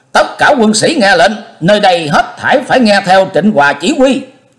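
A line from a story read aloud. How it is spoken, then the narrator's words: Loud commanding shout. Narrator (Vietnamese): Diệp Linh Tô cao giọng kêu to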